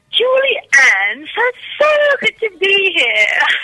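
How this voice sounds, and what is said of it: Put-on English accent. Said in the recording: “I'm always practicing my accent whenever I come over... she turned well English. Very English.”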